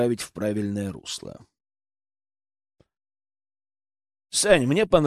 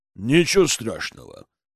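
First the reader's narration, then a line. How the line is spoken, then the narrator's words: Deep bass voice. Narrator (Russian): пробасил снова Борис Борисович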